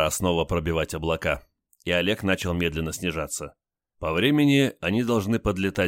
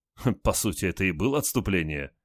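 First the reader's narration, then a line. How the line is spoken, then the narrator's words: Short chuckle. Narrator (Russian): хохотнул Олег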